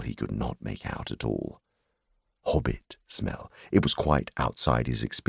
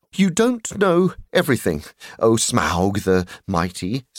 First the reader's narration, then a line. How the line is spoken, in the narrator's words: said he